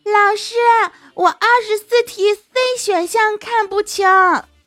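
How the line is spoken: Loud shout. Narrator (Chinese): 另一个男的也高声喊说

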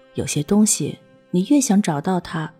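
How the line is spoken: Calm, indifferent. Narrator (Chinese): 他总是淡淡的说

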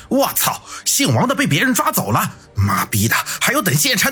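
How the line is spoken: Loud shout. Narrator (Chinese): 有人大声喊道

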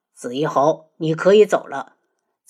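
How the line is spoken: Cold voice. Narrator (Chinese): 轩辕志冷声道

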